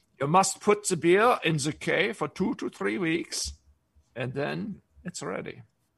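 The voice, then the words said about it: Bad fake German accent. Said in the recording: “that's a horrible German accent I just did”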